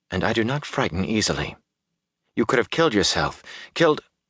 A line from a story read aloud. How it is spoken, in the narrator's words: said in a tight voice